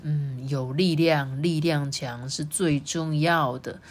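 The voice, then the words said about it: Quiet murmuring voice. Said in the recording (Chinese): “霸王龙小声念着”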